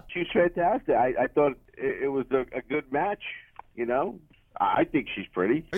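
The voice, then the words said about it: New York accent. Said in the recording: “You got a New York accent. ... You sound New York-y, yeah.”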